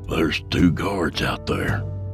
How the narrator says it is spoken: Yancey whispered

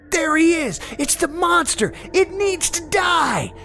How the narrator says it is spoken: they all screamed in tandem

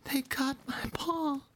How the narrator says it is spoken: he sobbed

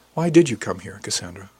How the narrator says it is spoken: I asked

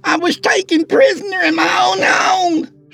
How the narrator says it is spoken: She screamed frantically

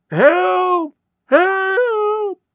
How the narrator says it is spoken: cried Mr

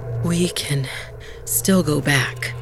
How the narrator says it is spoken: Bala panted

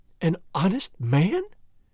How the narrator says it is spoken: she exclaimed with the utmost contempt

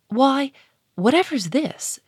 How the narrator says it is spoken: she cried

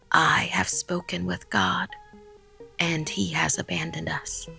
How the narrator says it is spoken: He whispered

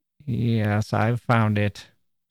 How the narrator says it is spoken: said Miss Van Vluck in a queer voice

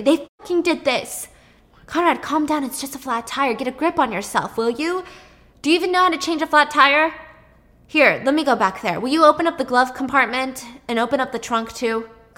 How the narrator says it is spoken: he's screaming hysterically

